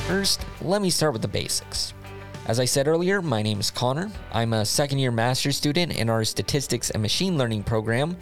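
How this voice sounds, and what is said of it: American accent. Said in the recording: “If you can't tell by my accent, I was born and raised in the United States”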